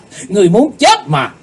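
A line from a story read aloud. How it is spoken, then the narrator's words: Shouting. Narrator (Vietnamese): Trong tiếng quát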